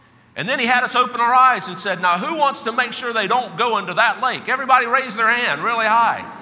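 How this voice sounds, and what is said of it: Usual voice. Nothing is said of it.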